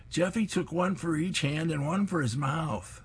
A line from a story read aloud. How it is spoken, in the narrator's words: Dolly shouts